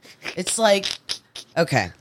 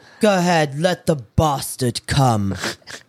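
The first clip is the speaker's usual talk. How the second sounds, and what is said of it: Imitation of a bad English accent. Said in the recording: “Mira with her terrible accent, and she talked this way ... so many people from England were probably pissed off”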